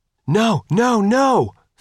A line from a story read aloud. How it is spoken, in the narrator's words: Faith shouted